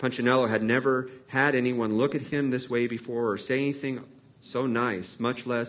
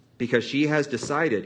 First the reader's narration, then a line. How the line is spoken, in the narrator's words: Eli said